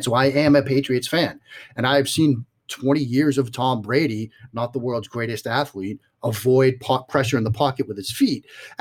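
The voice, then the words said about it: Strong Boston accent. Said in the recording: “listening to my voice, you might realize it. Yes, I'm from the Boston area... I have a flagrant Boston accent”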